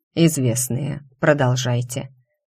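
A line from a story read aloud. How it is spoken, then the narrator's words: Unnervingly calm. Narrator (Russian): отвратительно спокойно сказал Альгредо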